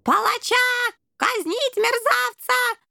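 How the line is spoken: Shrieking rat general. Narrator (Russian): завизжал крысиный генерал

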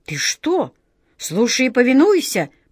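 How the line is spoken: Wizard's sharp rebuke. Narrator (Russian): прикрикнул на него волшебник Алёша

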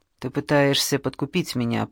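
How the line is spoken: Mutter. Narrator (Russian): пробормотал Малкольм

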